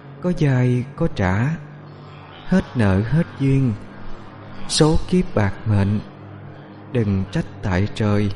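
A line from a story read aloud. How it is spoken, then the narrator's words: Soft singing. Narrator (Vietnamese): Nó hát lên khe khẽ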